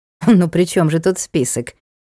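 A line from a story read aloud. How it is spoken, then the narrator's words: Nasty creature snorting. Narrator (Russian): Хмыкнуло гадкое животное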